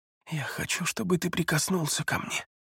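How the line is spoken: Whisper. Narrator (Russian): прошептала Элеонора

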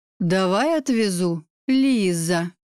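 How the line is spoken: Drawling. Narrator (Russian): протянул Григорий мое имя

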